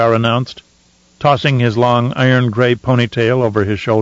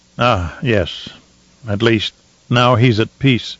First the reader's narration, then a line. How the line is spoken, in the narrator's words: Shaddam said in a low, husky voice